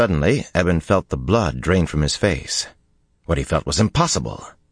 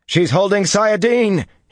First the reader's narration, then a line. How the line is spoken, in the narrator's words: he shouted